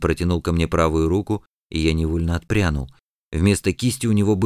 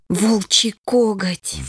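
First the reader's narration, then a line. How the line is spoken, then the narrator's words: Breathed out. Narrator (Russian): выдохнула Лия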